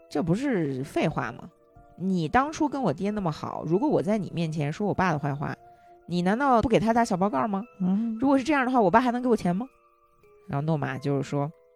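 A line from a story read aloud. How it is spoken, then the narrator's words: Smiling. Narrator (Chinese): 我就冲他一笑，我说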